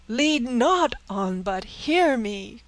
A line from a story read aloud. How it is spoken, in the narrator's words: cried Francis